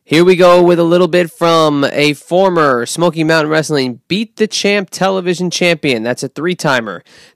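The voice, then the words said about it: Imitates another person's voice. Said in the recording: “my best impression”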